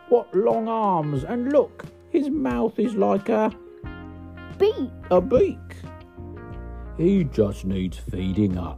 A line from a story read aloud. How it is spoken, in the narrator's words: she grumbled